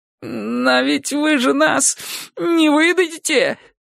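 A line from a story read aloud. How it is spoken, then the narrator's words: Trembling voice. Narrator (Russian): дрожащим голосом спросил тот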